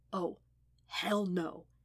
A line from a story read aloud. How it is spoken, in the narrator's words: he whispered